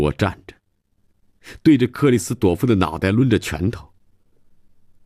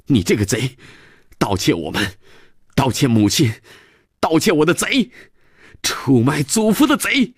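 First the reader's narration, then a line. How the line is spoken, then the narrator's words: Angry child shouting. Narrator (Chinese): 孩子……气哼哼地又喊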